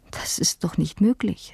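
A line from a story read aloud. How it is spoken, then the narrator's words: Stammering, breaking off. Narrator (German): stammelte ich und unterbrach mich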